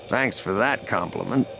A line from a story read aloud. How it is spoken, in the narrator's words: Lando muttered